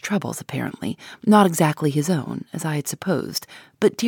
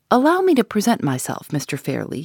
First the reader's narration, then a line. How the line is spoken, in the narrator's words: said